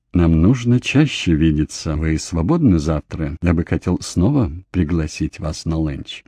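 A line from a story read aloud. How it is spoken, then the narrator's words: Tender. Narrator (Russian): Джордж нежно сказал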